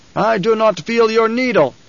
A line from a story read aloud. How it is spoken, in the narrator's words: he shouted